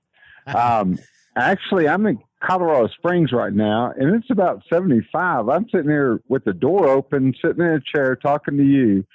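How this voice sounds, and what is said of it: Texas accent. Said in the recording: “I thought I could tell by that accent. ... that's that Texas accent”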